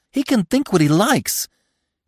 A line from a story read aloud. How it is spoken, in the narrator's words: she cried, bleating again